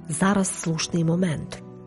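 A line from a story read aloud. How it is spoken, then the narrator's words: Quiet. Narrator (Ukrainian): Паула тихо мовила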